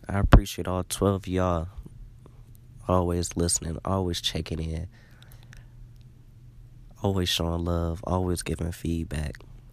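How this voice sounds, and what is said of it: Sick, under-the-weather voice. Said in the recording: “tell by my voice, ... definitely, definitely under the weather”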